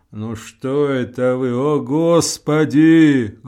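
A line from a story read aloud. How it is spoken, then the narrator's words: Anxious low bass, old woman. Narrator (Russian): глухим басом тревожно отзывается старуха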